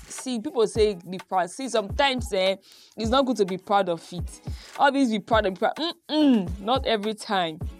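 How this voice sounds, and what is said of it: Nigerian Benin accent. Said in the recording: “my Benin accent ... it's very terrible to have an accent”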